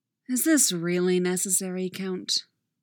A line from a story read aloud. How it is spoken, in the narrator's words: Obi-Wan sighs